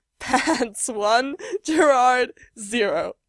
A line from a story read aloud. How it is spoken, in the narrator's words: he gasps out between giggles